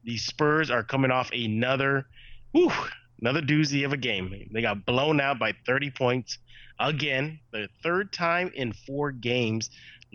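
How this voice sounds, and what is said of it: Stuffy, congested voice. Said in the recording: “I am under the weather. I am fighting a really bad cold. So if I sound a little stuffy”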